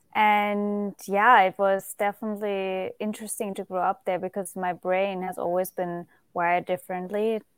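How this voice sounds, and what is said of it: Noticeable foreign accent in English. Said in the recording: “you can probably detect an accent. ... I'm originally from Germany.”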